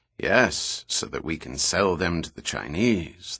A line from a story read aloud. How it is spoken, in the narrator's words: the minister replied dryly